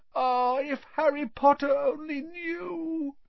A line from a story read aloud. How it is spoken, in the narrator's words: Dobby groaned, more tears dripping onto his ragged pillowcase